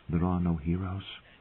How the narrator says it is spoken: a voice inside her whispered

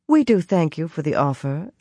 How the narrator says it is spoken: Elias replied smoothly

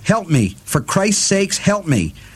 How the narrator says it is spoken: he cried

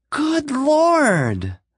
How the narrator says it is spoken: Madge shrieked, hysterically

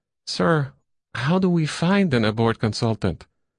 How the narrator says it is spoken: the cull boy said

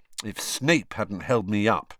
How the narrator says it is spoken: Harry said bitterly

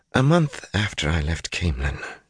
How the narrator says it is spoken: she muttered

